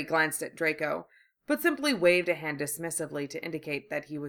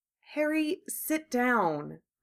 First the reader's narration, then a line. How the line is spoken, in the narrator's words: Hermione said nervously